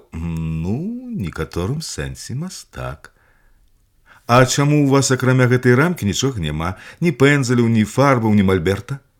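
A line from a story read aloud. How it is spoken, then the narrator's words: Girl asking again. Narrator (Belarusian): Зноў спыталася дзяўчынка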